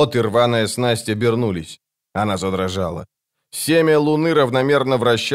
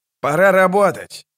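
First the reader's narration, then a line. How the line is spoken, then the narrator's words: Shout. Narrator (Russian): крикнул Локон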